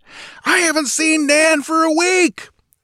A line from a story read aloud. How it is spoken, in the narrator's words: the woman bellowed in reply